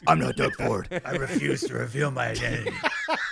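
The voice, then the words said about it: Bad imitation of Batman voice. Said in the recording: “doing a bad imitation ... Why is ... using the Batman voice?”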